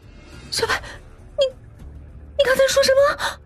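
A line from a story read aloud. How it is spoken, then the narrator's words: Crying, yelling. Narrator (Chinese): 白昕一边哭一边冲他嚷着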